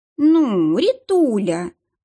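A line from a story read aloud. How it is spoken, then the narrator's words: Offended drawl, woman. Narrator (Russian): обиженно протянула Дарья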